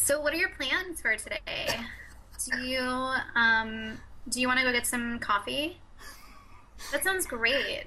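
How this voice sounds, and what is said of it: Put-on California accent. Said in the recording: “do your California voice? ... answered all these questions in a California voice”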